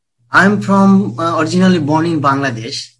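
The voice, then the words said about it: Bengali accent. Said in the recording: “So Bengali. That's what I thought by your accent.”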